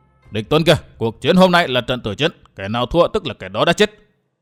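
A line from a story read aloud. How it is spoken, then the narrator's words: Roaring like a hungry tiger. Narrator (Vietnamese): Châu kiếm hồn gầm như hổ đói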